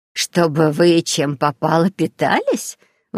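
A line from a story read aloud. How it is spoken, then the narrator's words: Indignant through laughter. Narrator (Russian): возмутилась Дарья сквозь смех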